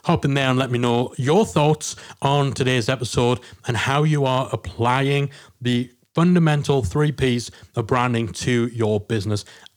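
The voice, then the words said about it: Funny-sounding own accent. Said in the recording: “I know I've got a funny accent.”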